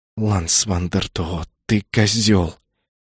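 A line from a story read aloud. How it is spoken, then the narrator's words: Hissed. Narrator (Russian): прошипела она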